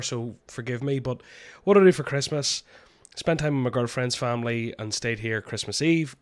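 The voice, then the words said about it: Sick, ill-sounding voice. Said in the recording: “I'm dying sick. You can probably hear it in my voice”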